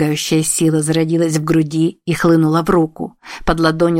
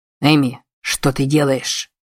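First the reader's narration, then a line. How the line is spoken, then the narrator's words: Sharp question. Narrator (Russian): резко спросил ее Мэй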